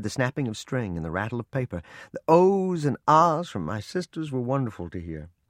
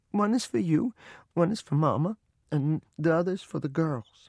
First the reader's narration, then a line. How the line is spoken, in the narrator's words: Without raising my head from my mother's lap, in a choking voice, I said